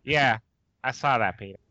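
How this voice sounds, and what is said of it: Good Lois Griffin cartoon voice. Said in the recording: “That was a really good Lois Griffin impression.”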